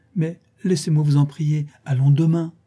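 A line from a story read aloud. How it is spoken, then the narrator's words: Exclaiming. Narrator (French): s'écria-t-elle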